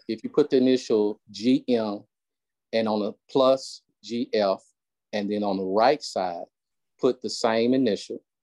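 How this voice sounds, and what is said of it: Slight Southern American accent. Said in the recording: “you gotta excuse my little Southern accent”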